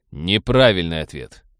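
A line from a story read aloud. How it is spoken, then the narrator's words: Cold. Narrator (Russian): холодно произнес Роджер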